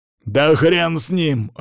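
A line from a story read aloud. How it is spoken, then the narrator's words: Growl. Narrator (Russian): рыкнул Данила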